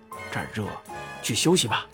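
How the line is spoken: Whisper. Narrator (Chinese): 后羿悄声说

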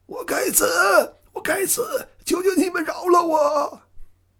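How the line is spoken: Hoarse panicked shout. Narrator (Chinese): 一个大胖子 一面逃一面哑着嗓音叫道

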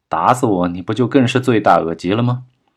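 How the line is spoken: Cold sneering laugh. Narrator (Chinese): 钱海明嘿嘿冷笑两声，道

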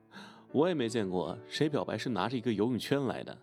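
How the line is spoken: Hearty laughter. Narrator (Chinese): 我哈哈笑道

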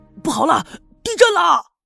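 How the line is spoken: Shouting. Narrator (Chinese): 喊声

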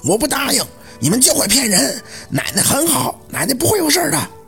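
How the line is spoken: Hoarse cracking shout. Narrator (Chinese): 扯着那倒仓嘶哑的嗓子大喊了一声

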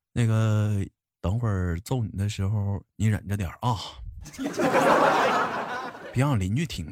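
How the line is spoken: Calm, offhand. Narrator (Chinese): 我爸 淡淡的对我说道

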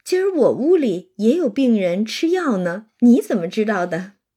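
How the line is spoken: Laughing. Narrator (Chinese): 黛玉也笑

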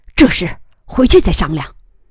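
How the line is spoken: Stern. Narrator (Chinese): 金仁瑞厉声说

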